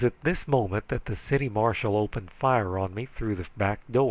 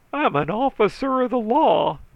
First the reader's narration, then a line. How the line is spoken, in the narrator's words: he howled